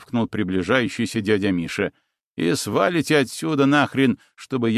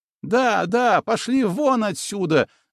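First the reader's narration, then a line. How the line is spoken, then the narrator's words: Girl shouting. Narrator (Russian): закричала девушка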